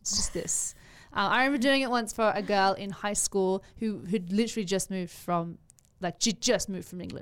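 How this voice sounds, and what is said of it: Put-on British accent. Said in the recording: “Oh, I can do a pretty decent British accent... It's basically my impersonation of Emma Watson... you kind of sound like you're from Sussex. So apparently this is a Sussex accent”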